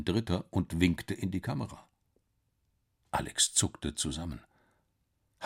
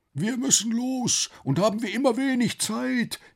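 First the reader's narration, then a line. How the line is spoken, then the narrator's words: Calling voice. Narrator (German): rief die Stimme wieder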